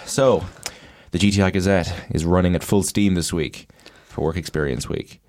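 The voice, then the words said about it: Slightly congested voice. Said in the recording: “I've got a bit of a cold,”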